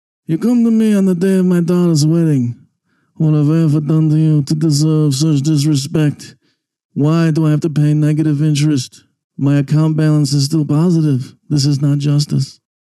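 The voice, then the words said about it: Don Corleone Godfather impression. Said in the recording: “played a clip there of the Godfather ... That was actually me doing an impression ... I'll do an economic version of it.”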